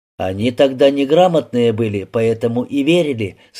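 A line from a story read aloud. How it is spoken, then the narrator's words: Plain. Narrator (Russian): сказал Сергей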